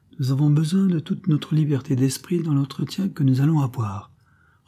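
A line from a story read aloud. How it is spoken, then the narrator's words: Calm reply. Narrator (French): repartit la créole d'un ton calme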